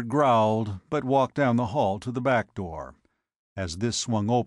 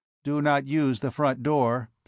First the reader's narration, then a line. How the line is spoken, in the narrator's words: said the robot